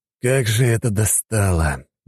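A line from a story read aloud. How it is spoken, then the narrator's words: Sighing. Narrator (Russian): вздохнул Коганов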